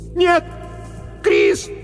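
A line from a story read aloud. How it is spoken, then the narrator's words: Screaming into darkness. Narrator (Russian): закричала она в темноту позади себя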